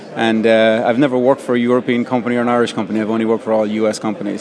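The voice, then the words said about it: Irish accent. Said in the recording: “by your accent, you're not actually from Silicon Valley originally ... I'm originally from Southern Ireland”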